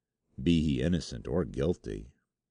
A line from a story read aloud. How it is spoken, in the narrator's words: said my friend gloomily